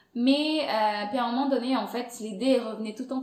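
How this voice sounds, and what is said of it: Foreign accent speaking French. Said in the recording (French): “je parle français, mais dans ma tête, j'ai toujours mon accent ... ton accent vient d'où”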